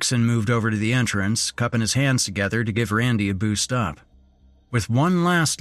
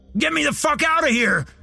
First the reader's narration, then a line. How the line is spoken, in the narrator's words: Randy shouted